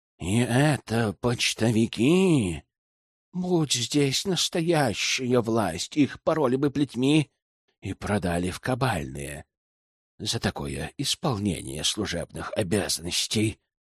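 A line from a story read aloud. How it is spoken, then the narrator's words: Hissing cleric. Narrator (Russian): прошипел оптиматский клирик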